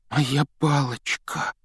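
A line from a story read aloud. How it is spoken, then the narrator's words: Trembling voice. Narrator (Russian): дрожащим голосом произнес Рон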